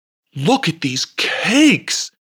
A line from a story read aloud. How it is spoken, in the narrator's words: exclaimed Goblet